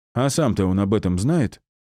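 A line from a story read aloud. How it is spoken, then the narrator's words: Hostile snort. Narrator (Russian): хмыкнул второй с неприязнью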